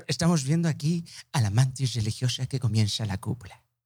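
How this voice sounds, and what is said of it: Nature documentary dubbing narrator voice. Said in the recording (Spanish): “el acento del doblaje de Discovery Channel”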